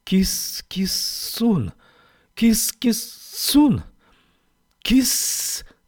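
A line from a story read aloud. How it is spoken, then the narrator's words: Hissing, crackling calls. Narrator (Russian): Звуки шипели и трещали вокруг, как искры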